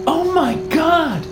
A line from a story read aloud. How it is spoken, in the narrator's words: Patricia said, her voice high and tight